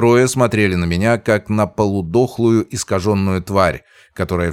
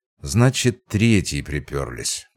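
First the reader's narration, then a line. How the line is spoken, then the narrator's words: Muttered. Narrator (Russian): пробормотал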